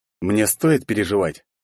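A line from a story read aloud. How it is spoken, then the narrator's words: Cold question. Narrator (Russian): холодно спросил я его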